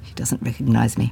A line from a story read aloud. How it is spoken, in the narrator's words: Maggie had murmured to Ginger